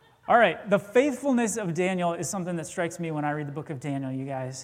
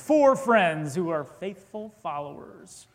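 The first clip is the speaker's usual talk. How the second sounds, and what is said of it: Dramatic movie trailer voice. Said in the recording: “movie trailer voice.”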